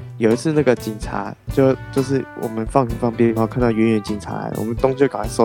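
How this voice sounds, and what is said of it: Usual voice. Nothing is said of it.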